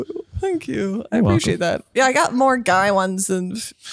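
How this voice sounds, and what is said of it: Usual voice. Nothing is said of it.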